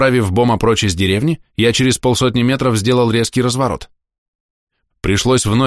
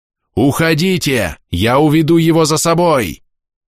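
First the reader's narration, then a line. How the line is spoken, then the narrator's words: Yell. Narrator (Russian): заорал я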